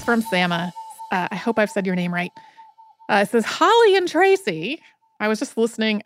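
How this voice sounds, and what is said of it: Put-on little voice, odd tone. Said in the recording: “I don't know why I said that in such a tone ... put on a little voice”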